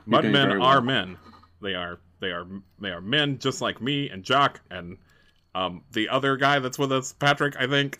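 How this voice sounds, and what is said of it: Put-on accent for a character voice. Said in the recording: “I like this accent you're giving Indy right here”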